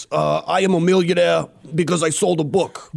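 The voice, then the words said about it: Imitates another person's voice. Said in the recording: “Can you just talk in your Bernie accent? ... Do Bernie.”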